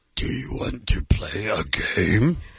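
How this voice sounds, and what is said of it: Jigsaw impression, Grover-and-Yoda-like voice. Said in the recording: “Jigsaw, what's that sound like? ... That's my impression. ... It's like Grover Jigsaw and a little Yoda had a baby.”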